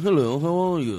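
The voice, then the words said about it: Parody posh rich-person accent. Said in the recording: “the rich person accent ... a parody of a rich person”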